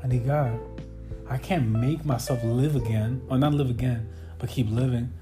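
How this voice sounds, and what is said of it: Tearful, stuttering speech. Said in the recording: “I can't make myself stop crying ... I'm stuttering like crazy”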